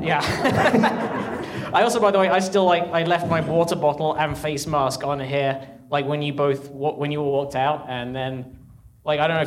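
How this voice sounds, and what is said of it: British accent. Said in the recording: “In addition to being British, ... is also one of the smartest people I've ever met, even accent aside.”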